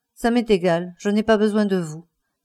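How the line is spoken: Cold. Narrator (French): dit Campbell froidement

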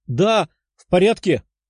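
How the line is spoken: Tearful exclamation. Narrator (Russian): воскликнула Дарья, из глаз которой текли слезы

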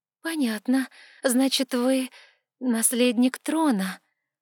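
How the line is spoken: Uncertain, placating. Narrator (Russian): попыталась исправить положение я и неуверенно улыбнулась

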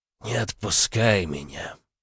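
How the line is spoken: Hoarse, tired, broken voice. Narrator (Russian): прохрипел уставший надломленный голос

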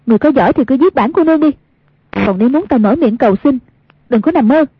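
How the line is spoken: Defiant raised shout. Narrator (Vietnamese): Một niệm từ tuy không chống nổi nhưng bất kể thế nào cũng không chịu nhận thua, cao giọng quát

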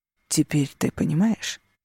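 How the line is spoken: Gentle question. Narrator (Russian): мягко спросил Алессандро

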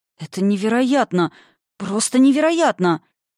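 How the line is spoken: Breathless exhale. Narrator (Russian): Выдохнул

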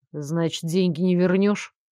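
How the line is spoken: Sad question. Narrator (Russian): грустно осведомился Элмер

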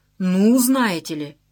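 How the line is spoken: Imitative exclamation. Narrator (Russian): совсем как Жмурова воскликнула Галина Викторовна

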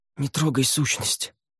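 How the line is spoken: Hoarse. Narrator (Russian): прохрипела она

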